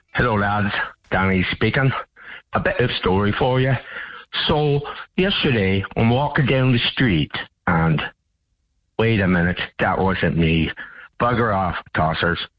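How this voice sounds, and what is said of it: Fake Irish accent. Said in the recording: “I don't know if that was a real Irish accent or not. ... Of course it wasn't.”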